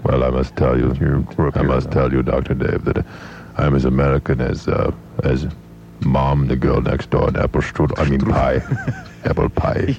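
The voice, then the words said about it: German accent. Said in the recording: “What the heck's the story with the accent, guy? It's a dumb accent. It's a very nice accent if you're a German person.”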